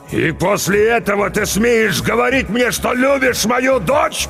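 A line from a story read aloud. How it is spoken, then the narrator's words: Furious roar. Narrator (Russian): побагровев взревел Ругу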